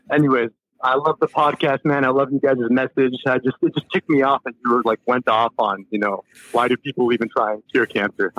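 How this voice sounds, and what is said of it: Mexican-accented English. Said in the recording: “You have a great accent... I was born in Mexico”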